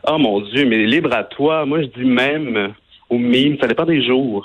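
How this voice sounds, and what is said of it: Regional French accent from the bay. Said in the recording (French): “Tu dis même avec ton accent de la baie. J'adore. ... mon accent ne me quittera jamais”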